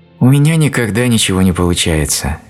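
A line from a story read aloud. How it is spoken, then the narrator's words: Sad sigh. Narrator (Russian): печально вздохнула она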